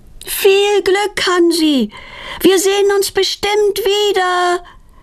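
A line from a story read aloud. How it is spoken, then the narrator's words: Calling after someone. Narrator (German): ruft Petronella ihm nach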